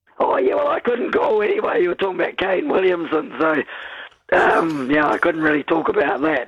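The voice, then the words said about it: Hoarse, laryngitis-affected voice. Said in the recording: “sorry about my laryngitis”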